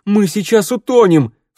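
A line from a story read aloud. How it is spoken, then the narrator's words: Sharp cry. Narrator (Russian): вскрикнул Теодор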